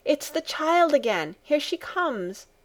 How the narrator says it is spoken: the grandmother called out from her corner

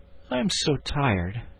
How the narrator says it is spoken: he gave a great sigh and said

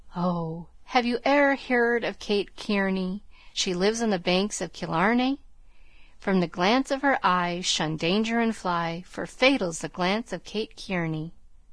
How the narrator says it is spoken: Lennox, he sighed and sung

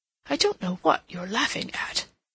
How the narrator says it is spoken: he muttered

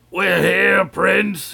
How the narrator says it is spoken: yelled Wool Take'em

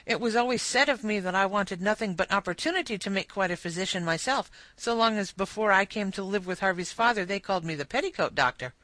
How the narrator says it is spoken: With increasing animation, therefore, she cried

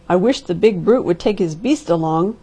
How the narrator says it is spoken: growled Mr

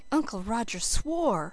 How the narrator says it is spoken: said Felicity in a shocked tone

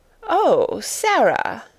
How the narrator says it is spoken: she exclaimed, endeavoring to produce a suitable smile

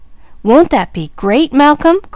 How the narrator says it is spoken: cried James Jr

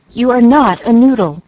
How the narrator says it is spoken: cried Mama, resenting the epithet

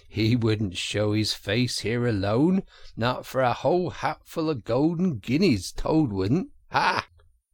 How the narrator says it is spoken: said the rat, laughing heartily

